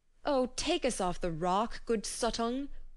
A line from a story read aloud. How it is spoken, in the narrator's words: they cried out to him